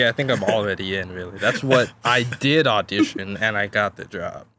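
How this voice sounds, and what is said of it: Usual voice. Nothing is said of it.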